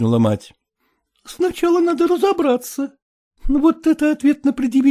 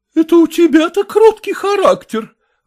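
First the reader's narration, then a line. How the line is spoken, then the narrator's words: Mother exclaiming. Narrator (Russian): воскликнула мать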